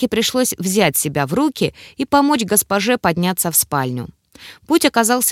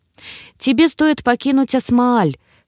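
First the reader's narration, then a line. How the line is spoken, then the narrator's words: Hoarse. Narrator (Russian): хрипло сказала она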